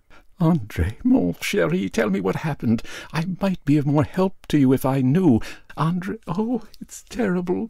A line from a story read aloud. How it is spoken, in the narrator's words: sobbed, unable to control myself